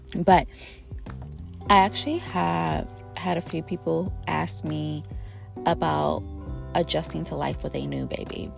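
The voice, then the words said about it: Rough, sick-sounding voice. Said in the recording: “my voice is a little ugh right now... under the weather, had a sinus infection last week”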